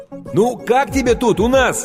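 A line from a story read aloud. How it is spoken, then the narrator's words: Shouting over noise. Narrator (Russian): крикнул Стэн ей прямо в ухо, поскольку уровень грохота в зале неуклонно возрастал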